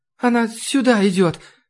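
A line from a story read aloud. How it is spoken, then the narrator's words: Moan. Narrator (Russian): простонала Маша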